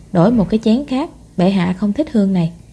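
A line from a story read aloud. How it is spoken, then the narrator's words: Soft, quiet. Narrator (Vietnamese): nói khẽ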